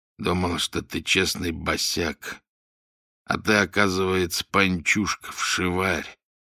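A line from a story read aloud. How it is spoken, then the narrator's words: Quiet. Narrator (Russian): негромко произнес он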